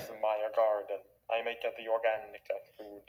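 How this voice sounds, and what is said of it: Bad put-on Italian accent. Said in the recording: “That's me doing Italian accent. ... That was a really bad Italian accent.”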